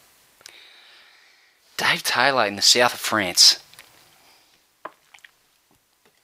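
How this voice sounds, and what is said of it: Usual voice. Nothing is said of it.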